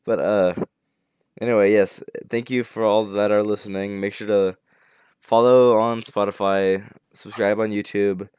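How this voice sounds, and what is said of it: Tired-sounding voice. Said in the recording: “Can you tell by my voice that I'm really tired?”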